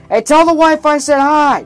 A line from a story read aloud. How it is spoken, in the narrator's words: Jack yelled over the crowd